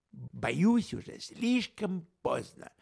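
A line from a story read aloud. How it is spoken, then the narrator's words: Irritated reply. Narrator (Russian): раздраженно отозвался детектив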